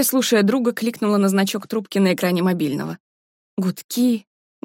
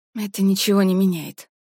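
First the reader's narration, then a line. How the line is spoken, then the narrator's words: Breathed out. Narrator (Russian): выдохнула Варя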